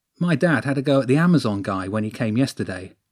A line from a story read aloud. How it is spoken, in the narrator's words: Max said